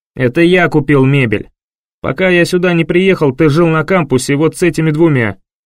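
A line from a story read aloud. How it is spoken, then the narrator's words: Barked. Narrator (Russian): Рявкнул Винсент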